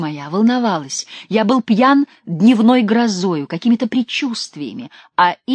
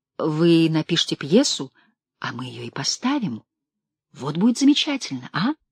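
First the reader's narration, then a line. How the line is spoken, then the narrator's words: Whispering. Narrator (Russian): шептал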